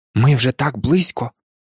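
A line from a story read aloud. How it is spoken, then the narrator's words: Sudden mutter. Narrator (Ukrainian): пробурмотів він раптом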